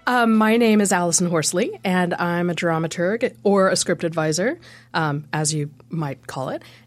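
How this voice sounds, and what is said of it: American accent. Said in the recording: “That accent sounds unfamiliar for a Dunedinite ... I'm an American.”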